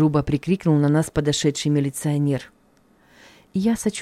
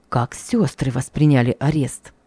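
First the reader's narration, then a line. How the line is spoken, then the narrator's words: Anxious whisper. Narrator (Russian): взволнованно прошептал Николай Ильич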